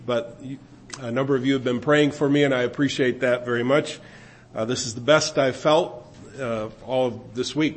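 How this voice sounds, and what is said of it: Congested, sick-sounding voice. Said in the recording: “I want to apologize for my new accent... fighting a cold all week”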